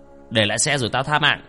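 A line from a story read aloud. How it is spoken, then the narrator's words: Masked man shouting. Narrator (Vietnamese): hắn bịt kín mặt quát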